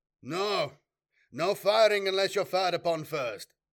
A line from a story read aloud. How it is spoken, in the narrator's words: bellowed Horst, countermanding his second-in-command's order